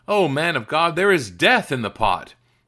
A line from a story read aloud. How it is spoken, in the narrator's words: they cried out